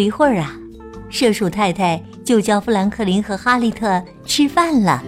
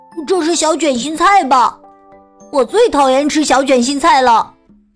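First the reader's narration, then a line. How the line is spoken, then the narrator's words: Loud shouting. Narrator (Chinese): 他大声喊道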